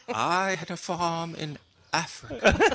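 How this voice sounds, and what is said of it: Meryl Streep impression. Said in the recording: “his Meryl Streep impression.”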